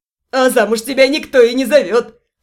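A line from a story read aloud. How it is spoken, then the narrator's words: Scoffing. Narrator (Russian): Хмыкнул блондин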